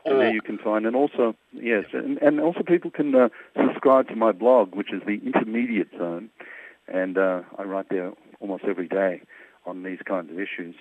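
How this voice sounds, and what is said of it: Australian Melbourne accent. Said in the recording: “I'm Melbourne born and raised ... You can tell by the accent.”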